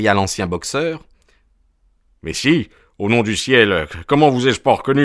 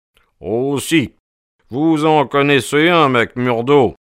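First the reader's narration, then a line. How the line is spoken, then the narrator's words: Friendly exclamation. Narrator (French): s'écria Sherlock Holmes d'une voix avenante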